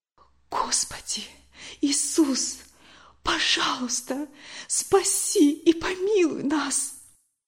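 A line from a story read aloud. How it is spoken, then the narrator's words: Whisper. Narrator (Russian): прошептала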